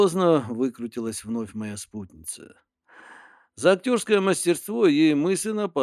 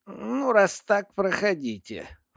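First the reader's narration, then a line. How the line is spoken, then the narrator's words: Snorting. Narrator (Russian): фыркнула та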